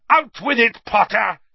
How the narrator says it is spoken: he bellowed

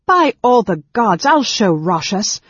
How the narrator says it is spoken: Gil proclaimed loudly

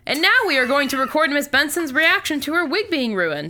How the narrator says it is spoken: Sam yells

